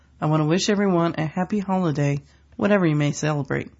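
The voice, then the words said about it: Congested voice from a cold. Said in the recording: “I have a bit of a cold, so I might sound slightly off from my normal goofy self.”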